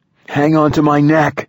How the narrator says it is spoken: yelled

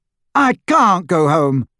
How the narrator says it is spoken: Ginny shouted, angry tears sparkling in her eyes

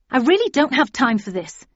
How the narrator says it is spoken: I said crossly

